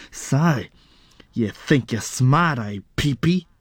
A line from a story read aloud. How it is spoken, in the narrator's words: He snarled